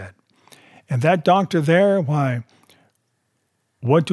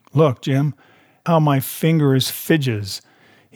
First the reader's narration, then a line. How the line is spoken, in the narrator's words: he continued in the pleading tone